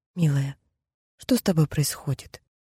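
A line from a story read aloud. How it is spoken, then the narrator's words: Much softer tone. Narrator (Russian): Уже совсем другим, куда более мягким тоном поинтересовалась она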